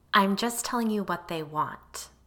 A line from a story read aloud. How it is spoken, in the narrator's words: I said evenly